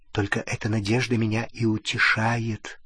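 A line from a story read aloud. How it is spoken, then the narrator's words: Whispered. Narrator (Russian): прошептала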